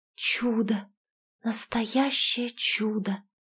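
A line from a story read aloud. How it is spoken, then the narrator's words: Whispered. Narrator (Russian): шепотом проговорила Катя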